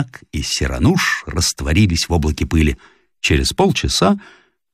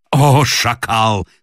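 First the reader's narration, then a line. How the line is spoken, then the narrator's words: Shout. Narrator (Russian): крикнул старший Арам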